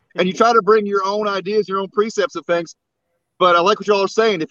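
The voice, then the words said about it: Slight Southern drawl. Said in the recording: “you got yourself a little drawl there”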